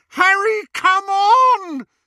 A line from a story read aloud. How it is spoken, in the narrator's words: screamed Hermione